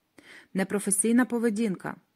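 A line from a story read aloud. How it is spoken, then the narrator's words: Plain. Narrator (Ukrainian): сказали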